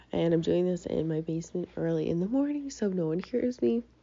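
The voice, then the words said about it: Congested voice from a cold. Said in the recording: “my voice sounds crazy. I have a little bit of a cold.”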